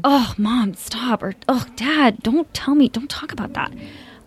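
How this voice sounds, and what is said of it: Imitated teenager voice. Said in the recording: “my teenage impression ... that was really good”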